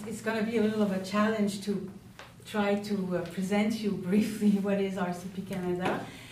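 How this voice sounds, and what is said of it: Non-native English accent. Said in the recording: “my accent and my English speaking, which is not necessarily perfect”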